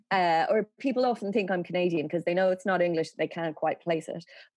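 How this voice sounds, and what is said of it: Dublin accent, slightly American, flat. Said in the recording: “I have the Dublin accent that my generation has from watching Friends. So it therefore sounds a bit American... quintessential Dublin accent because it's a very city accent. It's not kind of up and down. It's on the one note.”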